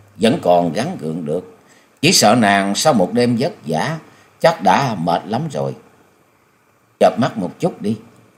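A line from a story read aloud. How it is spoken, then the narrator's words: Smiling. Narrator (Vietnamese): Nhậm Xương Bạch mỉm cười nói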